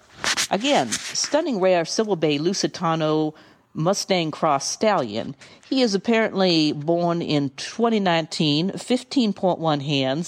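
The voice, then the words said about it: Put-on Southern drawl accent. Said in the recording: “I'm going to read it in my Southern Drift accent.”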